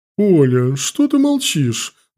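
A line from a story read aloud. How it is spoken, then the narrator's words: Exclaiming. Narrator (Russian): воскликнула бабушка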